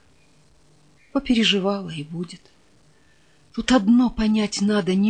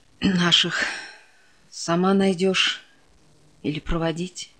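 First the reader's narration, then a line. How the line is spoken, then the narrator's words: Sergeant major's sigh. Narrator (Russian): Вздохнул старшина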